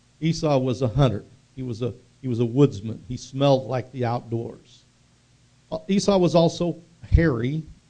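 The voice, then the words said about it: Oklahoma accent. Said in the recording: “I talk with an Oklahoma accent”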